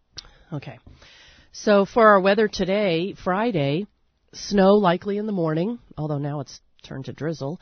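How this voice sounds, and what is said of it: Hoarse, froggy voice. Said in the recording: “I have a little bit of a frog in my throat.”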